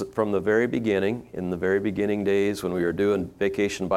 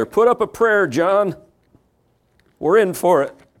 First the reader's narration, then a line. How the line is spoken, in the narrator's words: Terrified, one shouted to the other